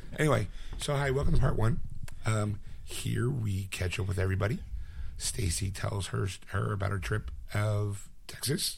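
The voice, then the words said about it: Hoarse, raspy voice. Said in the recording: “with a hoarse voice ... Excuse my voice ... I usually get some sort of a cold ... My voice kind of comes and goes ... Enjoy the raspy, soulful stylings”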